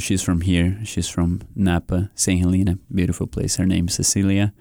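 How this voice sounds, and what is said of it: Brazilian accent. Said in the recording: “you can hear my accent. I'm from Brazil”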